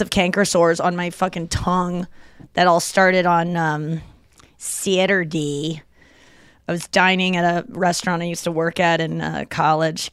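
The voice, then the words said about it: St. Louis regional American accent. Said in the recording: “I'm talking very St. Louis today ... we definitely adapted a St. Louis kind of accent ... it's almost like, Fargo”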